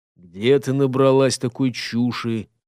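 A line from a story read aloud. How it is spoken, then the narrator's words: Cold. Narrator (Russian): холодно проговорил он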